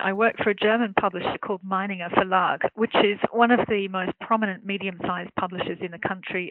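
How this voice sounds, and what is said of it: Australian English accent. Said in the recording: “I'm an Australian journalist, as you can probably tell by my accent”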